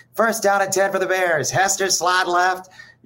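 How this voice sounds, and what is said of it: Bad Jeff Joniak radio announcer impression. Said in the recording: “I used to do a bad Jeff Joniak impression”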